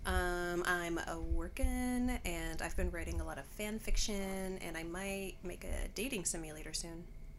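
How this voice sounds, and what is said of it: Slightly deeper than usual voice. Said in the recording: “my voice is a little deeper today because, yeah, I am recovering from like a cold”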